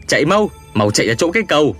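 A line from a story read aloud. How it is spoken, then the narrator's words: Urgent shout. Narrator (Vietnamese): hét lên với ba người kia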